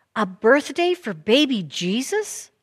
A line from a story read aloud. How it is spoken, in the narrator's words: Oscar exclaimed